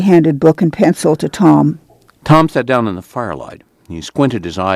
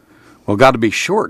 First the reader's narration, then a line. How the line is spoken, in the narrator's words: said Tom